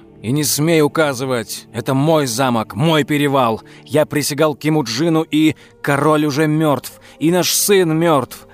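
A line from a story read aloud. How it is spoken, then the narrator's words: Desperate shout. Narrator (Russian): В отчаянии выкрикнула Лилиад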